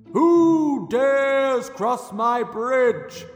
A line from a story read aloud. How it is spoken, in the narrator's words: boomed the troll